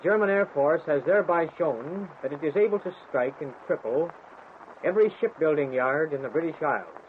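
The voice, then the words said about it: Flat American Midwest accent. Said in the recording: “It was the flat Midwest accent of Fred Kaltenbach, born in Waterloo, Iowa”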